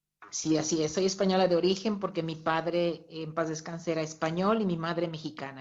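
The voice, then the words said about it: Pretty non-Spain Spanish accent. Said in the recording (Spanish): “ese acento tan bonito que tienes”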